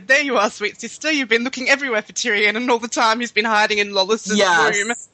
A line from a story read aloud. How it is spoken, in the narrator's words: said, when he laughs, he said